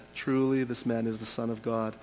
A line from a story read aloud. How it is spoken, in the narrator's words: The centurion stood facing him, saw how he breathed his last, and said